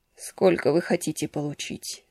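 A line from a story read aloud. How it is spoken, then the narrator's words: Weak voice. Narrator (Russian): спросил он слабым голосом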